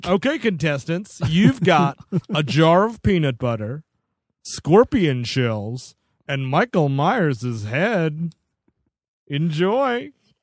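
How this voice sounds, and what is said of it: Imitates a game show host's voice. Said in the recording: “Oh, my Ted Allen impression.”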